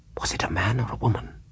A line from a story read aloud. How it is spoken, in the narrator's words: she asked in a whisper